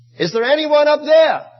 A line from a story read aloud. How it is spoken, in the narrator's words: Filled with terror, he called out